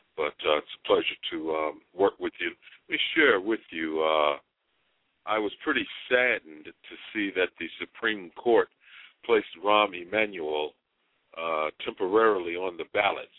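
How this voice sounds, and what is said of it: Unwell, slightly ill-sounding voice. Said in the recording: “I'm not feeling 100%, so as some of the listeners might tell in my voice”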